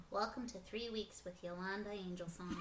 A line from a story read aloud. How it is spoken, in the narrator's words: solemnly says